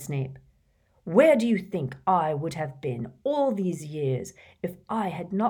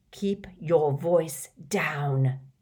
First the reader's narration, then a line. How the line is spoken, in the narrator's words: spat Snape